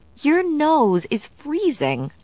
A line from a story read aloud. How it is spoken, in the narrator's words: said, giggling